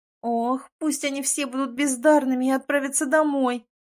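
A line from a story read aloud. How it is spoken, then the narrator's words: Moaned. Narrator (Russian): простонала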